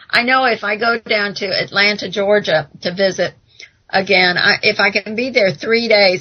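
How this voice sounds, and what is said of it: American accent. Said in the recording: “how sexy your American accent is?”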